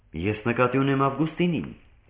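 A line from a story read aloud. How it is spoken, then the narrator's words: Plain. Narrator (Armenian): ասաց Արմենակը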